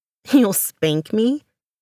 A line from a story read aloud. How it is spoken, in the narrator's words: She laughs a throaty laugh